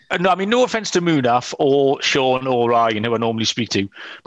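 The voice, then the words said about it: British English accent. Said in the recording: “those ads just sound so much better coming from a British accent ... as an Englishman”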